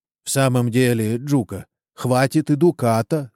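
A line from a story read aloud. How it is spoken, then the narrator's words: Plain. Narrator (Russian): сказал староста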